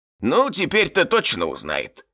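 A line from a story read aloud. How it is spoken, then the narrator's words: Snorting goblin. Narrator (Russian): хмыкнул гоблин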